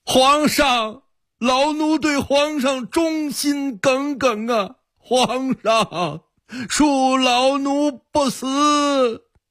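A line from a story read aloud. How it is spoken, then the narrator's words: Struggling, shouting. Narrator (Chinese): 宋圭挣扎着喊道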